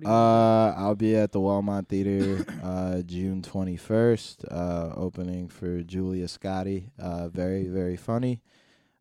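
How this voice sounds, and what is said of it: Tired, exhausted-sounding voice. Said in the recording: “I don't know why I sound exhausted saying this”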